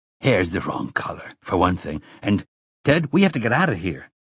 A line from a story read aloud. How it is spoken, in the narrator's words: the youngest of the three said urgently